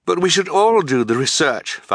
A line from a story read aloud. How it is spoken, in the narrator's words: Violet cried